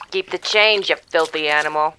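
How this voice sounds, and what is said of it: Put-on New York City accent. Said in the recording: “That was a decent like New York City accent”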